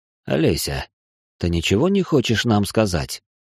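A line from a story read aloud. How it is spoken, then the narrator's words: Deceptively calm question. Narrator (Russian): Обманчиво спокойно прозвучал вопрос моего мужа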